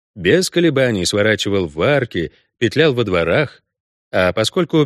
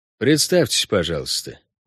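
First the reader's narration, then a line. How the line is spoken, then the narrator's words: Flat colorless tone. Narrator (Russian): бесцветным тоном предложил охранник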